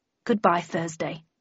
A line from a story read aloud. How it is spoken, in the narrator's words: muttered Landon